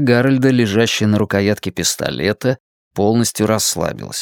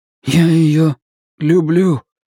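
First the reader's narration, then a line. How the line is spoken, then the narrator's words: Hoarse voice. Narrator (Russian): сказал Гарольд сиплым голосом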